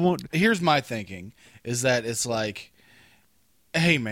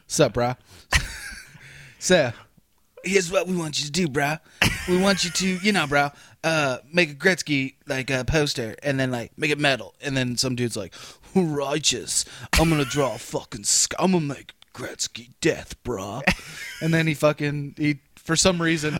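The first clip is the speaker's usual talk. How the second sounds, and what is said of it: Put-on Californian surfer accent. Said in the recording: “They're Californian, so you got to do a Californian accent.”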